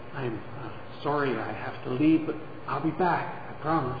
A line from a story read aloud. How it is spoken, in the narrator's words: Caught somewhat off guard by his feelings, Daryl leaned over and whispered